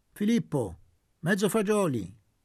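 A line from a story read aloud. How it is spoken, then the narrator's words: Peremptory command. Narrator (Italian): detto con tono perentorio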